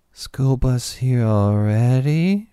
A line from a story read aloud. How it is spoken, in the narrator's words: She asked dreamily